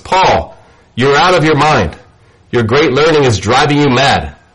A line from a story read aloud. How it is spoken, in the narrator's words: Festus said in a loud voice